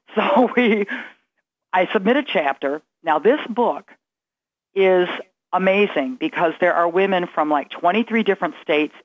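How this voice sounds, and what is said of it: Strained voice sounding like Joan Rivers. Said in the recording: “lost my voice. ... I feel like that's what my voice sounds like tonight is Joan Rivers.”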